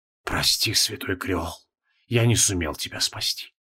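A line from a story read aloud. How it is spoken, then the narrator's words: Departing soul's whisper. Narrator (Russian): прошептала отлетающая душа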